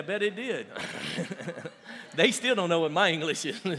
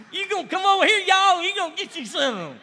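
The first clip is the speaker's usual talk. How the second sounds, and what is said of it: Put-on thick Southern accent. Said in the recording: “a very thick Southern accent”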